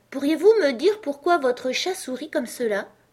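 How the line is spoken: Rather timid question. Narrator (French): demanda Alice assez timidement, car elle n'était pas très sûre qu'il fût très poli de parler la première

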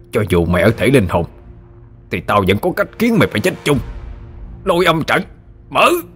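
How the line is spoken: Menacing snarl. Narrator (Vietnamese): Đôi mắt gian trá đầy sự mưu mô ác độc, hắn nhe hàm răng ra mà gằn giọng nói

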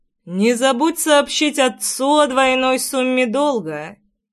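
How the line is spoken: Lazy tossed remark. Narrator (Russian): лениво бросил я ей вслед

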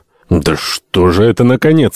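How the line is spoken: Grumbling. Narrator (Russian): ворчал Альтамонт

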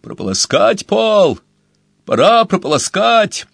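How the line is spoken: Yelled. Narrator (Russian): Он завопил

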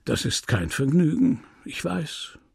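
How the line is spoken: Gentle voice. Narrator (German): mit sanfter Stimme

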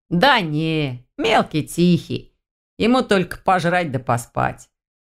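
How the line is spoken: Laughing. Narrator (Russian): рассмеялся Павел

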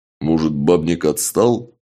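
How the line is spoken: Uncertain suggestion. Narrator (Russian): неуверенно предположил Чак

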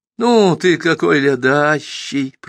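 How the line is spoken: Sing-song. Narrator (Russian): пропела она, и без причин рассмеялась

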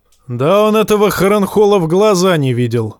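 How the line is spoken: Shouted. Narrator (Russian): выкрикнул Коттерпайк

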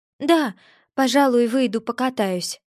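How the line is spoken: Shaky-voiced answer. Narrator (Russian): дрогнувшим голосом ответила

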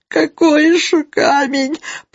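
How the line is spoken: Hoarse, pained wheeze. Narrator (Russian): прохрипел Тихон Тихоныч, кривясь от невыносимого жжения

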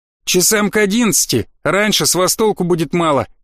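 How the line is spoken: Chuckle over phone. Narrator (Russian): хохотнул в трубку Коршун

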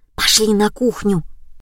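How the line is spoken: Whisper. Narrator (Russian): Лиза прошептала

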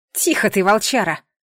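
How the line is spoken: Irritated girl snapping. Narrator (Russian): Раздраженно прикрикнула девушка

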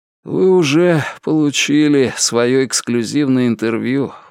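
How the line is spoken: Tired voice. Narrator (Russian): устало произнес он

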